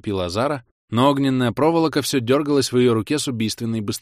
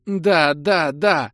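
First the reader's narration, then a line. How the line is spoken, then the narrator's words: Sobbing. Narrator (Russian): Зара всхлипнула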